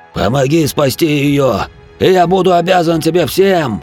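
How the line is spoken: Renewed desperate shout. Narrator (Russian): прижатый к земле бургомистром дворф закричал с новой силой

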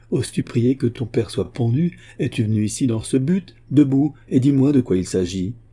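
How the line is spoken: Exclaimed. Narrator (French): s'écria Wilmot

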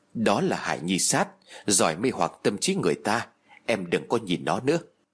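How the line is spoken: Whispered warning. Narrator (Vietnamese): Lúc này tôi sợ hãi quá mức, Đường Dũng đột nhiên dừng bước nắm lấy tay của tôi, cúi đầu thì thầm bên tai của tôi rồi nói

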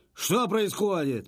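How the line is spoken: Sharp shout. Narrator (Russian): прикрикнул Сандер

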